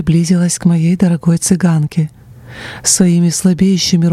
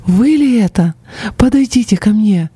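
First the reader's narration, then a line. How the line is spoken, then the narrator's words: Beaming exclamation. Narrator (Russian): просияв, она воскликнула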